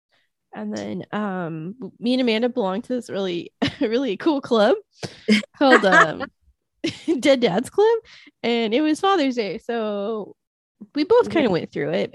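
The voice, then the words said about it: Sick-sounding, unhealthy voice. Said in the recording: “Still recovering, as you can tell from my voice. I still don't sound like a healthy person ... I keep coughing because my lungs don't work anymore”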